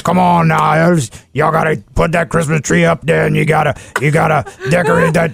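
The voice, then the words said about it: Coach O impression. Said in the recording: “you do a great Coach O impersonation ... Coach O and Santa are a lot alike in the way they talk”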